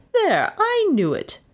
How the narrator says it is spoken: she said triumphantly

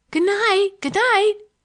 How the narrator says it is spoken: cried Olivia, the real Olivia, in derision to the company

